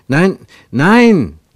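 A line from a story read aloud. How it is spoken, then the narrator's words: Calling out. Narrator (German): rief Ernst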